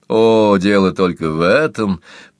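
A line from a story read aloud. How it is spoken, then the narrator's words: Condescending laugh. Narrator (Russian): покровительственно рассмеялся Бойлон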